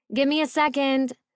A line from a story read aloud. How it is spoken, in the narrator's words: hollered